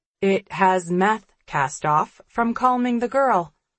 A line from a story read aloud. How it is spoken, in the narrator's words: I answer calmly